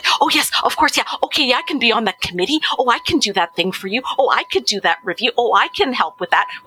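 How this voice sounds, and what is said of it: Imitates her own eager younger voice. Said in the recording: “I'm just doing an impression of myself.”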